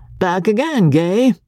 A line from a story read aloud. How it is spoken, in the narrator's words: he of the keen gaze had exclaimed